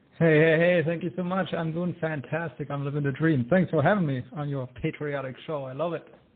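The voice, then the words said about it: German accent. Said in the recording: “I hear a German accent. Is that correct, sir? Is it the German accent?”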